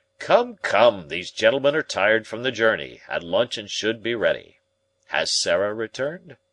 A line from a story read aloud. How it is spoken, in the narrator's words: the professor laughed loudly